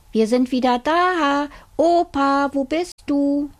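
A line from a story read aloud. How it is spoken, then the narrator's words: Little boy calling out. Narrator (German): Der kleine Junge rief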